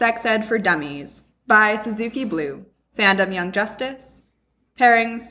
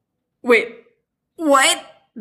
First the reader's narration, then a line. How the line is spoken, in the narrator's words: Robin asks, practically choking on his soda